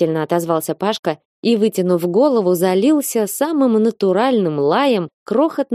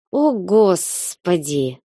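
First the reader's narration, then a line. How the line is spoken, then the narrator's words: Hissed. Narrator (Russian): прошипела я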